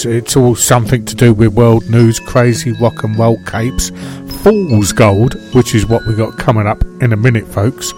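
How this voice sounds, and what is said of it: Croaky, congested voice. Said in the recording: “I got a coughing fit ... I got a fog in my throat ... I've got a cold.”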